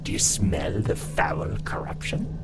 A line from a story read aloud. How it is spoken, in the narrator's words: The raspy voice came unexpectedly from my shoulder